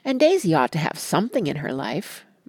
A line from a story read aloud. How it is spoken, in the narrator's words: murmured Jordan to me